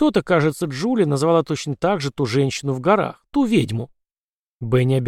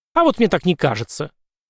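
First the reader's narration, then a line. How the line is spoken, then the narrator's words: Sharp. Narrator (Russian): резко сказала она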